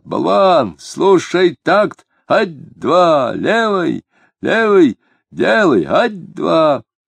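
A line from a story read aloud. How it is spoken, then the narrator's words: Shrill tenor chanting. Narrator (Russian): визгливый тенорок выпевал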